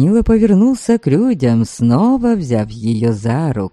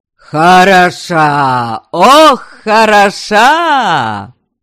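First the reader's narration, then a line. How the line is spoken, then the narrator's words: Crowd yelling. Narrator (Russian): Вопили все вокруг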